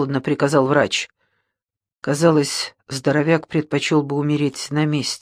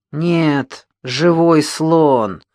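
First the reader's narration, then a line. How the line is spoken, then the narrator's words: Big man grumbling. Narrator (Russian): проворчал верзила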